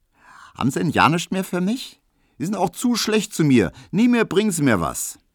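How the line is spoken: Girl calling. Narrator (German): rief das Mädchen

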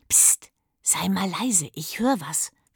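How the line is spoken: Whisper. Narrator (German): flüsterte Leo

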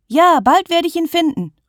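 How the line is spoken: Calling after her. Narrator (German): ruft Lisa ihr hinterher

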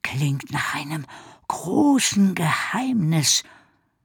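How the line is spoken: Moved whisper. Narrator (German): flüsterte Ricky ergriffen

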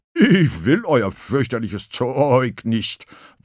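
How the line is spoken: Unintelligible bubbling roar. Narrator (German): wollte es brüllen, doch weil sein Maul voll Wasser war, erklang nur ein unverständliches Blubbern

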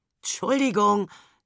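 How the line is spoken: Croaking reply. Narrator (German): krächzt Papa zurück

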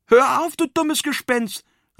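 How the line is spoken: Calling out. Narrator (German): rief

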